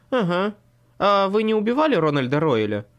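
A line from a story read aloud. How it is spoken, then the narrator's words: Ringing laughter. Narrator (Russian): Слейт звонко рассмеялся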